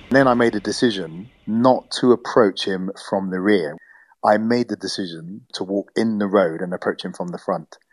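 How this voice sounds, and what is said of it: British English accent. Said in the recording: “he'll know I'm British ... I needed to hear my English accent”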